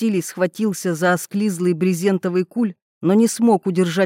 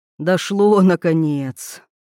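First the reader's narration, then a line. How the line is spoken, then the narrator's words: Weary sigh. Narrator (Russian): устало вздохнул Вольф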